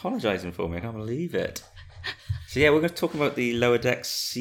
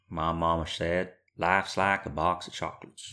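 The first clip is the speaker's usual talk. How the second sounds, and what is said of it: Poor Forrest Gump impression. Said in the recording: “That also was not Forrest Gump's accent. ... No, it was awful. I don't know what it was, actually.”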